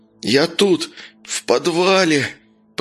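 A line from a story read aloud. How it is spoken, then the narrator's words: Man moaning. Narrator (Russian): простонал мужчина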